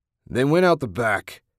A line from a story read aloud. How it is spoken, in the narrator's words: Jack bellowed